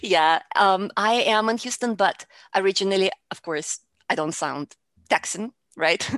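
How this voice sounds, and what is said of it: Russian accent in English. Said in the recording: “I am from Russia ... my accent didn't really go away ... just because I have an accent”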